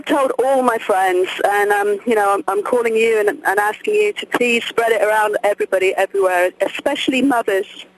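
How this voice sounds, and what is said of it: Non-American foreign accent. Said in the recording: “your accent, we have to tune those poor American ears to your accent.”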